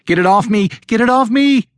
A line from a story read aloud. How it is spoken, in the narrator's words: Jennifer shrieked